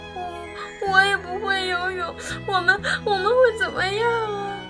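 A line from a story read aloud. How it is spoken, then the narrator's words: Crying baby dinosaur. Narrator (Chinese): 棘龙宝宝哭着说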